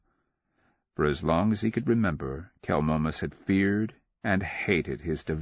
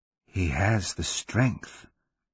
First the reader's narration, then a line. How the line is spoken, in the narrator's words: the voice whispered